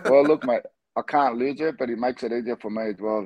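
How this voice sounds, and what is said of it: Australian accent. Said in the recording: “you've got the Aussie accent as well”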